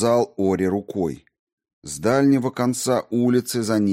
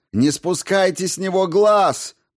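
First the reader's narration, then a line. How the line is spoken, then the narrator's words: Shouted. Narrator (Russian): прокричал Ори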